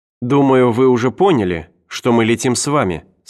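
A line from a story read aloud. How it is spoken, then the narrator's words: Plain. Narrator (Russian): сказала Кеннеру Энн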